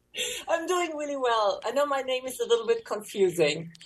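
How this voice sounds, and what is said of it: German accent. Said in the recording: “It doesn't sound like it matches my German accent.”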